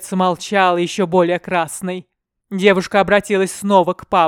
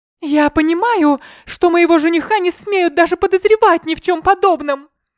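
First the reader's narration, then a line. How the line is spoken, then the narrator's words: Shouting. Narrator (Russian): кричала Настя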